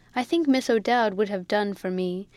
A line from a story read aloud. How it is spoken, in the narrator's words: said laughingly